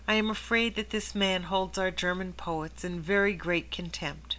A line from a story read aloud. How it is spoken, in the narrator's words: he said softly to Martin